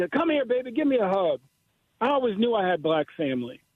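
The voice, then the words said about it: Genteel Virginia Southern lady accent. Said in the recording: “this very genteel, you know, Virginia lady accent”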